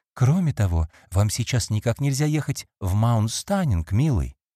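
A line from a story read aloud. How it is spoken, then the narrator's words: Soft. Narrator (Russian): мягко добавила она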